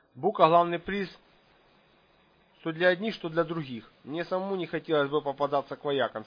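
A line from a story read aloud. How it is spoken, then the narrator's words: Angry. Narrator (Russian): сердито сказала Ника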